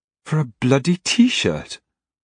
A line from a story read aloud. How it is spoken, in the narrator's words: Marie exclaimed